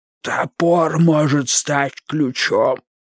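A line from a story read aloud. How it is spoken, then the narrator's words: Hoarse rasp. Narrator (Russian): сумел прохрипеть Вудвард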